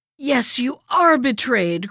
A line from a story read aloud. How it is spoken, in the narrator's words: cried Ismenor in a terrible voice